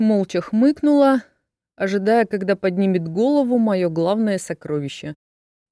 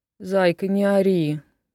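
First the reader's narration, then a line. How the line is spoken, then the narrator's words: Tender grumble. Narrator (Russian): нежно проворчал тот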